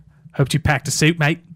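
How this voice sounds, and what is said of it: Australian accent. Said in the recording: “Can you do an Australian accent? ... Is that pretty good? ... Yeah”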